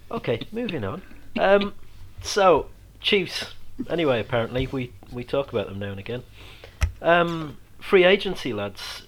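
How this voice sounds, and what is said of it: Mixed Yorkshire and Irish accent. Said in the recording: “It's the accent, you know, the accent. The Yorkshire slash Irish mingling thing that I have.”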